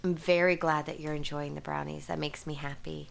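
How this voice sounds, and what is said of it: Slightly weird, sniffly cold voice. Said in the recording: “my voice sounds a little weird... trying to get over this cold... there's some sneezing and some sniffling”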